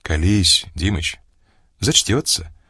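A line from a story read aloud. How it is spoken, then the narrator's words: Kind voice. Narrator (Russian): добрым голосом сказал Олег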